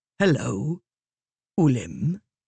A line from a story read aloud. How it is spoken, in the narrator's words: the man said in a soft, steady voice